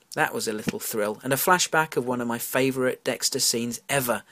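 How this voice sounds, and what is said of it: British accent. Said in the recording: “They sound so much better in your accent ... my British accent and pronunciations ... my British idiosyncrasies”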